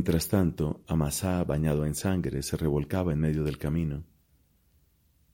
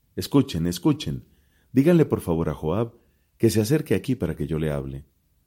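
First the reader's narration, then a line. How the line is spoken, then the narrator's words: Woman shouting from afar. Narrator (Spanish): una mujer sagaz gritó desde la ciudad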